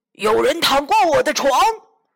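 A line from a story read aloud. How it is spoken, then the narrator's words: Sudden angry roar. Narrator (Chinese): 熊爸爸突然咆哮起来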